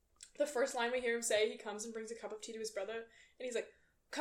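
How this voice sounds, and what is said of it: Usual voice. Nothing is said of it.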